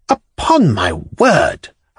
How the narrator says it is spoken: I cried furiously to the German

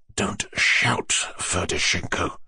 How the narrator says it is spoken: Titsin observed to him in an undertone with disgust

